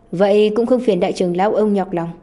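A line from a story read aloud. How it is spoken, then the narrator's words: Angry loud laugh. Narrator (Vietnamese): Lâm Huyền Khôn tức giận cười lớn nói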